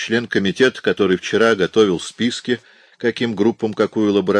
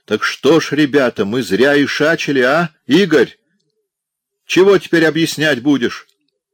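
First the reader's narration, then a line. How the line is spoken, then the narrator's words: Loud yell, burly man. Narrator (Russian): Крепыш громко заорал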